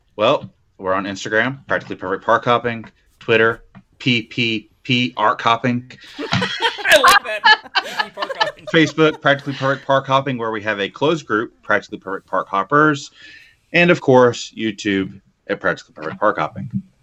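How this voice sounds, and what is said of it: Announcer-style radio voice. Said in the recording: “he said it in his radio voice ... It was the radio voice.”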